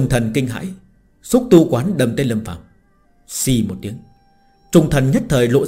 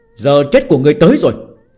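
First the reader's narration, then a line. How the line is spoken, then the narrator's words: Shout. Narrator (Vietnamese): quát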